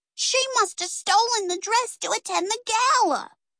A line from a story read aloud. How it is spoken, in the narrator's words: cried Peggy